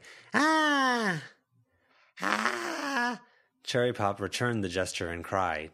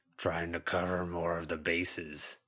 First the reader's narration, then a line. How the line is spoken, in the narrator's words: Blunt Munch growled